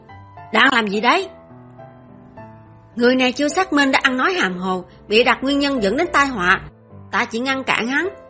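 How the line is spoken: Soldiers shouting loudly. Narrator (Vietnamese): Các quân sĩ bên ngoài phản ứng lại đầu tiên, họ xông vào hét lớn

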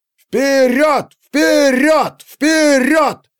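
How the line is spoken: Crowd shouting. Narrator (Russian): кричали зрители

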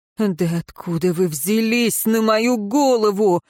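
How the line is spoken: Wailing. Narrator (Russian): взвыл Денталь

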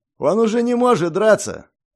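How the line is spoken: Slaver shouting. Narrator (Russian): выкрикнул один из работорговцев

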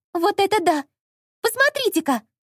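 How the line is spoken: Loud exclamation. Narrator (Russian): Громко воскликнула Алиса

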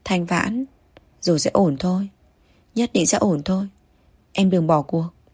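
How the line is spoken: Trembling, comforting. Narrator (Vietnamese): run rẩy an ủi cô

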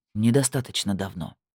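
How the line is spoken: Clipped through teeth. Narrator (Russian): процедил

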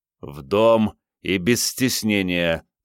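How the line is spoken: Growl. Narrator (Russian): прорычал Андрей

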